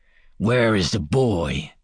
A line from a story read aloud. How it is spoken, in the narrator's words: he snarled